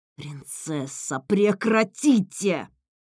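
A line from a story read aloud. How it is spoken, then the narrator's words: Hissed. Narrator (Russian): прошипел стражник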